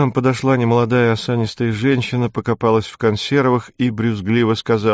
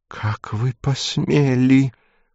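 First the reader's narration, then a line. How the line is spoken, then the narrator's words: Hissing voice. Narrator (Russian): произнесла шипящим голосом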